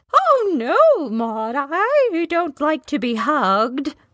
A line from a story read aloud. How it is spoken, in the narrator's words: the headmistress exclaimed